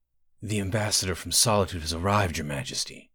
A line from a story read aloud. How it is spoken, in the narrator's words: whispered the steward Balvas